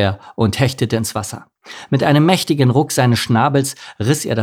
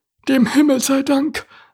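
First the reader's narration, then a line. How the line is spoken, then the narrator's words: Relieved sigh. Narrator (German): seufzte Larissa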